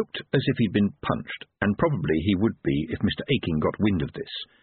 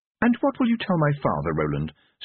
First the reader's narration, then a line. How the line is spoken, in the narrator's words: said Tiffany, sweetly